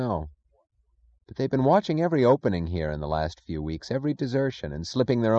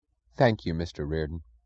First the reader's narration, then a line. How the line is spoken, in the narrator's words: he said, his voice solemn and low